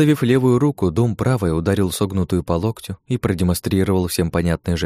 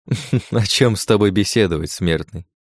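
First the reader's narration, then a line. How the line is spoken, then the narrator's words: Demon's chuckle. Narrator (Russian): Хохотнул демон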